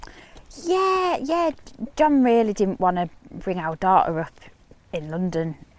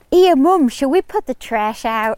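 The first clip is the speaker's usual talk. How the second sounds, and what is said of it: Child's Yorkshire-American accent. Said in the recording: “a Yorkshire accent, and now because she watches a lot of Netflix, it's like a Yorkshire American accent ... Like that.”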